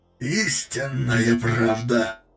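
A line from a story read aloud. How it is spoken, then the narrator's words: Hoarse wheeze. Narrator (Russian): просипел Люкурев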